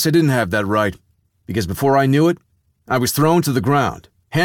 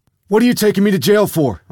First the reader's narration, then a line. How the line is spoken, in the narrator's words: I yelled